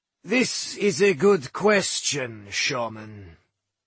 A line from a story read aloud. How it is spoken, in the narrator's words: he growled